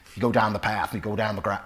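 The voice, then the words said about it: Put-on Cornish accent, hard R's. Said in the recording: “getting hard R's. That's how they talk in Cornwall, like that.”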